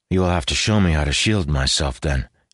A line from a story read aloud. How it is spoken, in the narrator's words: he said in a begrudging tone